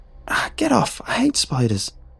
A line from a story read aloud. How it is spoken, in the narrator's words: I squealed